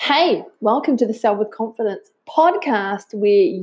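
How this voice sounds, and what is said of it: Usual voice. Nothing is said of it.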